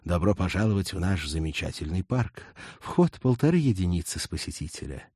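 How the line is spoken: Guard's unexpectedly soft, pleasant voice. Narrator (Russian): Стражник неожиданно мягким, приятным голосом произнес

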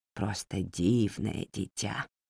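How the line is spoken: Quiet. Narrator (Russian): тихо произнесла она

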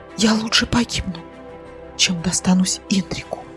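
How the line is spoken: Whispered. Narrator (Russian): прошептала Леля

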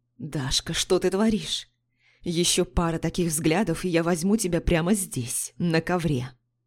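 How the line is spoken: Strained, choked mutter. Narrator (Russian): Сдавленно пробормотал Марк

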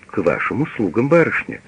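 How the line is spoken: Plain. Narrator (Russian): говорит он

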